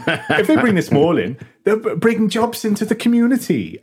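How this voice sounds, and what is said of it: Put-on Welsh accent. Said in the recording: “I'm not going to attempt a Welsh accent,... this is how you do it... now I'm doing it.”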